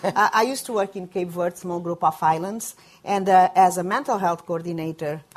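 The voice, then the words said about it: Speaks English with a foreign accent. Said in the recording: “before I came to the United States, you all figured it out by my accent”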